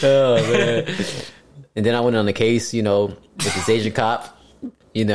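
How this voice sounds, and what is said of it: Usual voice. Nothing is said of it.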